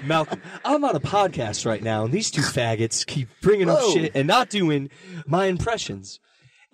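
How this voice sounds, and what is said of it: Bryan Cranston impression. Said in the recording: “does a fucking Bryan Cranston impression”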